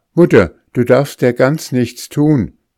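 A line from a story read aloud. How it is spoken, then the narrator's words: Boy calling out. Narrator (German): rief der Junge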